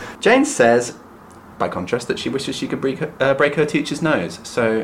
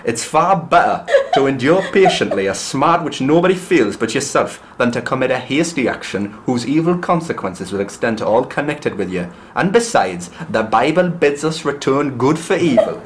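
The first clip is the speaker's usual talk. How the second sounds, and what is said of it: Put-on Newcastle Geordie accent. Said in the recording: “She comes from, like, Newcastle, doesn't she? So I'm going to do a funny voice now.”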